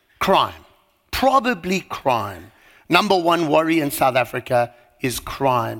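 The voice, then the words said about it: South African accent. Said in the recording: “You probably didn't pick up from my accent, but that's where I'm from... South Africa”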